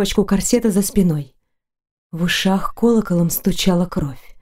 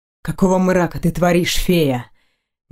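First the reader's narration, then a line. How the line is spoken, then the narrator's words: Low chest voice. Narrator (Russian): Низким грудным голосом проговорил он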